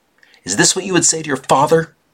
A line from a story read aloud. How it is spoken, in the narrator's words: she shouted